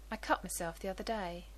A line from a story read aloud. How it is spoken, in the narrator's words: Rodney says in that same quiet tone